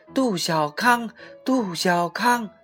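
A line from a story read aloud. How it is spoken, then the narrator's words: Children shouting together. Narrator (Chinese): 许多孩子一起叫起来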